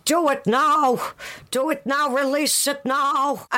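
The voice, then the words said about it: Put-on American accent, chanting. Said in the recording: “chanting behind the scenes in her American accent”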